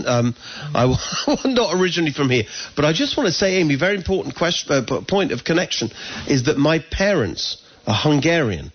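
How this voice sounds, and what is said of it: English accent. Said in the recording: “we moved here from England, as people can hear my accent.”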